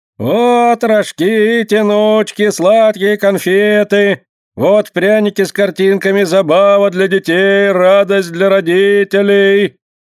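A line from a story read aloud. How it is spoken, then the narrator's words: Loud booming call. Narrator (Russian): выкликает он зычным голосом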